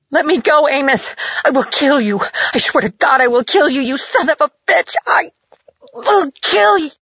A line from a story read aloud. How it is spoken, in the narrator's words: She shrieked